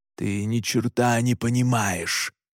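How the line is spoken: Angry growl. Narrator (Russian): зло прорычал

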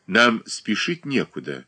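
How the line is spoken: Cold remark. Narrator (Russian): холодно заметила Катерина Александровна

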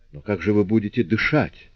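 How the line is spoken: Recovered, startled exclamation. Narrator (Russian): Придя в себя, Фошлеван воскликнул

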